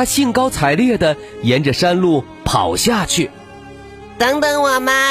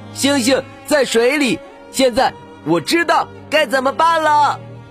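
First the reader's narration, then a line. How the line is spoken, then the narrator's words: Excited shout. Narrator (Chinese): 他兴奋地跳了起来，喊道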